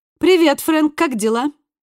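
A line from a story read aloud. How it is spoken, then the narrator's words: Light carefree question. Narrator (Russian): спросил Пол легким, беззаботным тоном, словно звонил в магазин поинтересоваться наличием какого-то товара на складе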